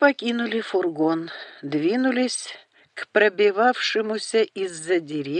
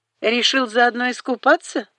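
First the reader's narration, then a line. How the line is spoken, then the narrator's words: Short laugh. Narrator (Russian): хохотнул Грег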